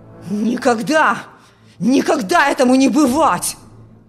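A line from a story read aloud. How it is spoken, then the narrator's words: Father's furious shout. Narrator (Russian): в ярости кричал отец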